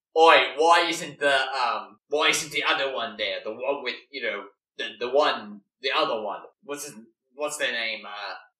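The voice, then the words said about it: Put-on Australian accent, character voice. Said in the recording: “I'm imagining him as them as Australian. So I think that's what their accent is just going to be, is Australian, not British. ... I'm gonna do one anyways, just so we know other character voices.”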